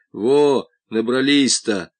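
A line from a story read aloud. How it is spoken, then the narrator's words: Grumbling. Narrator (Russian): ворчал он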